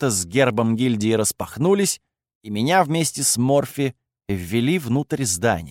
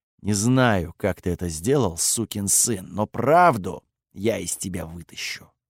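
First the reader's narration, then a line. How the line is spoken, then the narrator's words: Quiet speech. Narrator (Russian): Кириус тихо сказал мне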